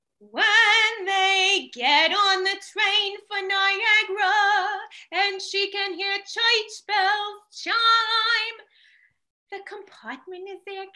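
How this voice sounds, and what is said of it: Singing Adelaide's New York accent. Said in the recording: “the best part about it was the voice, because, you know, she has a very like New York accent.”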